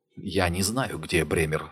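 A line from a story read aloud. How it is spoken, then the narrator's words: Whisper. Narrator (Russian): сказал шепотом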